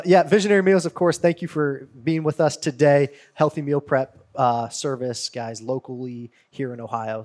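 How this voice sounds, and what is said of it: Raspy, strained voice. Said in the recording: “if my voice goes out tonight ... excuse my raspy voice ... If it squeals on your squeaks.”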